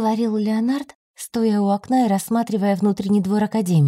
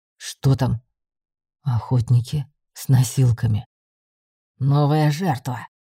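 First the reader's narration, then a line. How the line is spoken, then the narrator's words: Growl through teeth. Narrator (Russian): сквозь зубы прорычал Ривар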